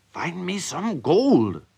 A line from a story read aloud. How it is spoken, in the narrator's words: cried the mean man again